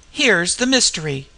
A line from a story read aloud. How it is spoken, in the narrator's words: I cried